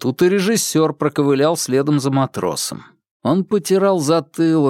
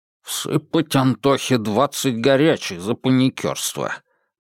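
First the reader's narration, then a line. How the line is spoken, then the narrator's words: Muttered. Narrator (Russian): пробормотали за Машиным плечом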